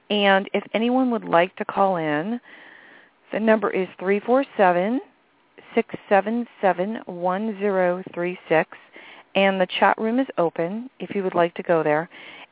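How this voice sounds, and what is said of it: Raspy, slightly hoarse voice. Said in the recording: “my voice is a little raspy. It's like allergies in the air right now. So if I sound a little different,”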